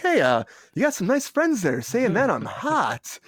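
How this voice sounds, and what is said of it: Imitates another person's voice. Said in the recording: “That was an impression. It is an impression, but Rachel, it is spot fucking on. That's exactly what Uncle Al sounds like. It is so crazy how good he does Uncle Al.”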